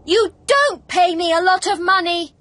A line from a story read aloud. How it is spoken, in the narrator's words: she shouts